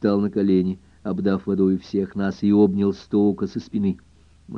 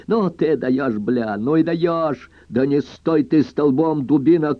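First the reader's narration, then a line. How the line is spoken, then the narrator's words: Shout. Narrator (Russian): крикнул Скип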